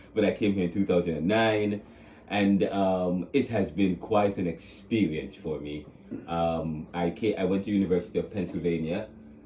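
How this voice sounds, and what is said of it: Jamaican accent. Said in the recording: “you hear the accent. You know, I'm from Jamaica.”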